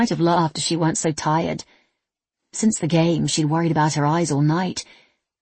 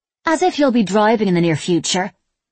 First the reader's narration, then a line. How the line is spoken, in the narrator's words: Lola said